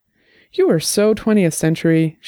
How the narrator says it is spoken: said, laughing

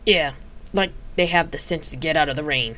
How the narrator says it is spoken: Palladia muttered

